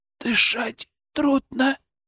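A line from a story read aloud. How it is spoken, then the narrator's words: Tearful whisper. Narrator (Russian): прошептал Сенька, и в глазах его блеснули слезы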